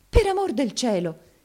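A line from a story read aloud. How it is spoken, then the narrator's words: Dismayed exclamation. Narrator (Italian): esclamò Maddalena intervenendo tutta sgomenta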